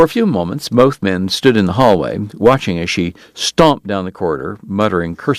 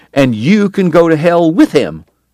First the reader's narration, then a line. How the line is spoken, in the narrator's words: shouted over her shoulder